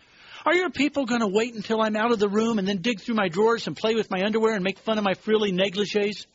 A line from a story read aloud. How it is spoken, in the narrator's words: the lady of the house blurted out